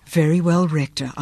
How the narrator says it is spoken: murmured

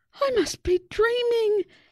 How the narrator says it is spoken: exclaimed Susie as she fell off her chair

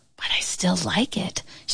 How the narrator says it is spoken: she whispered

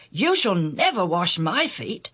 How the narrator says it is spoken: Peter exclaimed

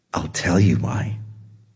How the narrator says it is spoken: Shimao said in a low voice

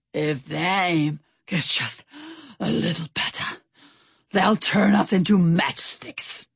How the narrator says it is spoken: Stout Sam panted

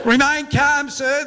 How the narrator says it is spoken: the edgy lifeguard hollered from the side

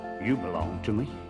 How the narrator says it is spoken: In a low whisper, the old tree would say

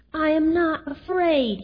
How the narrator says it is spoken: he cried

